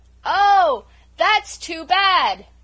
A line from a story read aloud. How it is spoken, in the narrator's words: shouted poor Felicity